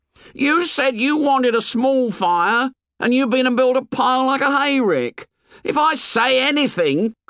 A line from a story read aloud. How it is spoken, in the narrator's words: cried Piggy with bitter realism